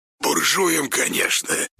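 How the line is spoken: Quick whispered reply. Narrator (Russian): тут же ответил шепотом Иван

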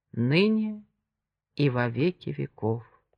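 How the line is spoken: Slow, solemn. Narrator (Russian): Джемма медленно, торжественно досказала девиз

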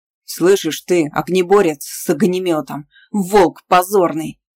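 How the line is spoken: Menacing bark. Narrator (Russian): рявкнул угрожающий мужчина

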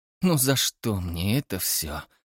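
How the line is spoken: Moaning. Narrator (Russian): простонала Тесса

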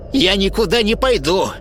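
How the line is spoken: Old woman, sharp. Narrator (Russian): резко ответила старуха

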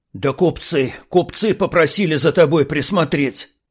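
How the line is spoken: Hoarse wheeze. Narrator (Russian): захрипел пленник

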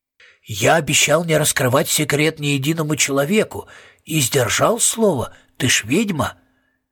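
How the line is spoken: Whisper in ear. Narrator (Russian): Бывший владелец прошептал ей в ухо

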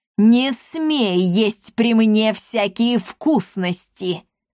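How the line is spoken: Screaming. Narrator (Russian): завопила

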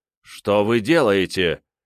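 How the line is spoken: Stern question. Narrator (Russian): строго спросил

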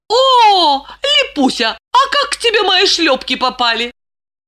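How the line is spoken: Rhetorical, feigned amazement. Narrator (Russian): Риторически поинтересовалась Глафира и мастерски изобразила изумление

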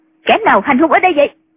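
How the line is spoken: Woman's sharp shout. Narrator (Vietnamese): người phụ nữ quát

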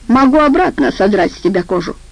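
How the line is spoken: Snapping retort. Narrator (Russian): огрызнулся Жопа

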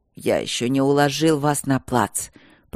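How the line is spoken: Hoarse wheeze. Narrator (Russian): просипел он

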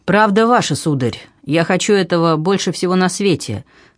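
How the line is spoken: Cold reply. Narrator (Russian): холодно ответствовал

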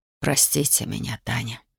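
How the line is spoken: Breathless mutter. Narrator (Russian): пробормотал он, с трудом переводя дыхание

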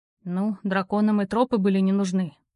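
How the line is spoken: Breathless mutter. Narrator (Russian): пробурчал Роу, остановившись в двух шагах от вершины, чтобы перевести дух

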